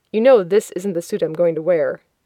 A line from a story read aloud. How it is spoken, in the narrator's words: He chuckles, saying